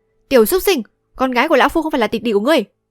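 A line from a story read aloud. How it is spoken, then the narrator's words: Loud shout. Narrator (Vietnamese): Hoạt Diêm Vương La Tù quát to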